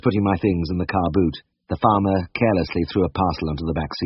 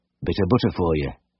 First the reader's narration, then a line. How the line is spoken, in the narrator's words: he muttered